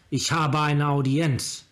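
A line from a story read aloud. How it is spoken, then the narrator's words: Shout. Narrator (German): rief er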